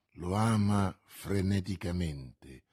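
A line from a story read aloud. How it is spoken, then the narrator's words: Murmuring. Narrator (Italian): mormorò D'Artagnan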